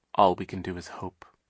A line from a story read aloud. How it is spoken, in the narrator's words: Sunny said quietly